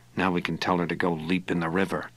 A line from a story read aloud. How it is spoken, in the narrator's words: he said under his breath